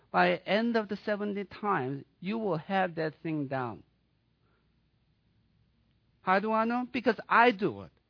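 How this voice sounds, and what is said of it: Swedish accent. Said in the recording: “I'm a foreigner... I'm from southern Sweden. That's why I have an accent.”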